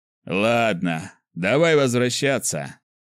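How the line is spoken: After laughing. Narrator (Russian): сказал он, отсмеявшись

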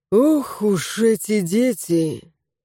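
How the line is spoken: Sigh. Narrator (Russian): вздохнул Давид Николаевич

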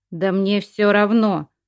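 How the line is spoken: Snapping, father. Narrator (Russian): огрызнулся отец

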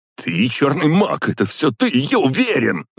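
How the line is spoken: Shouted out. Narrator (Russian): выкрикнул он

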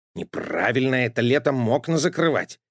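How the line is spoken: Grumbling. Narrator (Russian): проворчал Матроскин

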